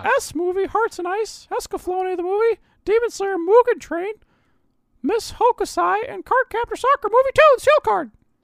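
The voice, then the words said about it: Hard-to-understand Mickey character voice. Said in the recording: “my Mickey accent ... nobody understood ... just now”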